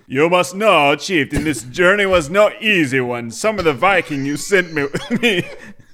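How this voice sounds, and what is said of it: Put-on accent, well done. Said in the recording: “It's a good accent, though.”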